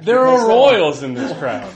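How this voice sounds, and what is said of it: Sudden put-on Cockney accent. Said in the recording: “Why did you suddenly have a Cockney accent?”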